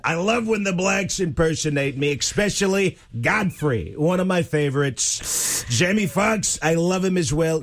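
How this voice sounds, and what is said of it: Imitates another person's voice. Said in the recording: “doing a Trump impersonation ... He's got a hot meatball in his mouth or something”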